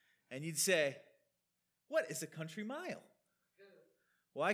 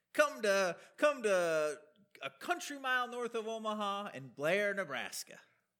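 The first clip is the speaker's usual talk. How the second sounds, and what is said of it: Imitated older Southern accent. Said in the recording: “there was this guy in this kind of older southern accent.”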